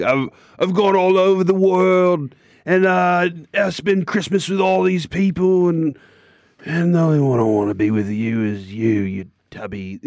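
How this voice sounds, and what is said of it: Put-on English accent. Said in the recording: “that English accent we just heard”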